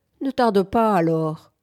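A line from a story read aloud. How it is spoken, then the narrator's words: Sorrowful tone. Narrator (French): dit l'autre d'un ton chagrin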